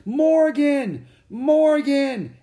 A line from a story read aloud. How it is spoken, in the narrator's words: Annie shouted